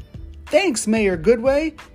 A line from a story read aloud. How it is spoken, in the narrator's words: Ryder exclaimed